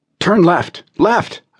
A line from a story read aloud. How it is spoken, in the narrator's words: I cried